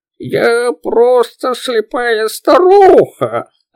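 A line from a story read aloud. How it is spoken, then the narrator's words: Hoarse old woman's voice. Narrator (Russian): Ответила какая-то женщина, чей голос хрипел, как от простуды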